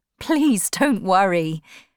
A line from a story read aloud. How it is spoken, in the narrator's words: replied, laughing